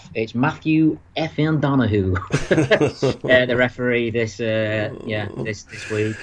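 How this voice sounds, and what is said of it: Imitates another person's voice. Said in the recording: “I'll do an impression”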